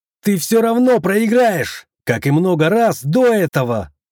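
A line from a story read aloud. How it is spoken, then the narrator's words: Shouted. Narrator (Russian): крикнул я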